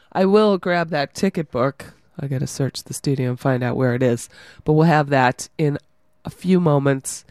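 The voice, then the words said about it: Scratchy, strained voice. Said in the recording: “my voice is a little scratchy. I've lost it.”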